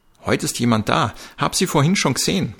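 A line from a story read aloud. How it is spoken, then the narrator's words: Calling out. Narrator (German): rief Frau Johanna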